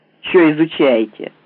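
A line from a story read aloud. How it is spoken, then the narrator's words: Rude question. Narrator (Russian): грубо спросил Уткин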